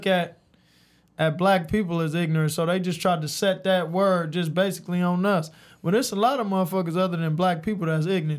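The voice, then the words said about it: Southern US accent. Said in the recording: “your southern accent ... like from like Alabama, Tuscaloosa, even Texas ... Sound like you chill on the porch”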